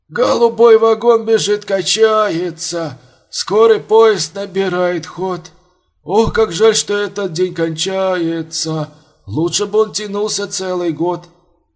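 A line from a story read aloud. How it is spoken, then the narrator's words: Hoarse singing. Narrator (Russian): сипло пел Поспелов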